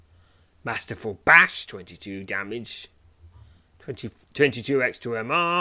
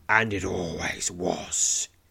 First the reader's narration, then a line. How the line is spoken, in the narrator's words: says, his cryptic words uttered by his gentle voice passing through you like a rumble of thunder